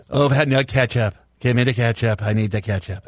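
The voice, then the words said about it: Donald Trump impression. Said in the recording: “your Trump impression”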